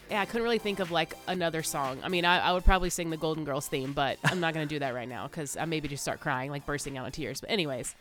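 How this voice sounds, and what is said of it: Deeper voice from being sick. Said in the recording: “my voice is a little bit deeper these days because I'm still sick”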